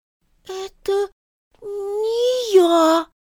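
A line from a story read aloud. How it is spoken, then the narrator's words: Howling. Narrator (Russian): взвыл тот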